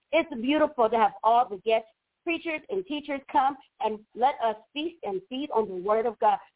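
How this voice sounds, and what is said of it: Excited, energetic voice. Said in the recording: “Yes, I'm excited. I know you can hear it in my voice”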